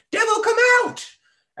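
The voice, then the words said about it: Intense screaming voice that cracks. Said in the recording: “I can't do his voice, but it's like his voice cracks. So it's really intense. That was probably the worst Paul Dano impression”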